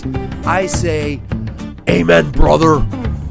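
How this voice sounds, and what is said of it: Imitates another person's voice. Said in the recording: “in my best Hulk Hogan voice”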